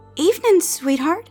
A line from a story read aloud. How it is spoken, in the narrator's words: her voice cracked